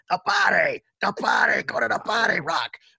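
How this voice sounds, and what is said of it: Imitates a gruff boxing trainer character. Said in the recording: “I'm channeling my inner Mickey from Rocky. ... Do you give me like a 7 on the impersonation”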